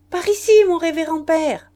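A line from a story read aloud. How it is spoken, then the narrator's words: Shouting. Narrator (French): criait sœur Hyacinthe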